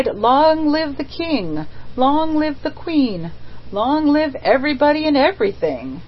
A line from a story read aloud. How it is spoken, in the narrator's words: The mender of roads bathed himself, so much to his temporary intoxication, that he cried